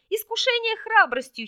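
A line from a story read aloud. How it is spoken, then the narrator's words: Giggle. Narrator (Russian): хихикнул Арбис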